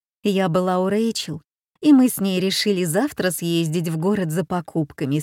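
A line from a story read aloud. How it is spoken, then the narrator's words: Plain. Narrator (Russian): сказала Марилла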